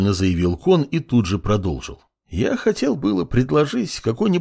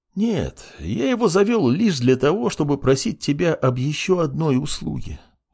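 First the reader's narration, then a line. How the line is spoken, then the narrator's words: Sighing. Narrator (Russian): вздохнул Кон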